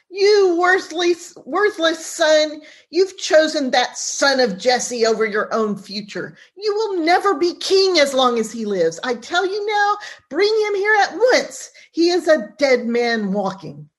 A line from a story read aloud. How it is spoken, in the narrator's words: He shouts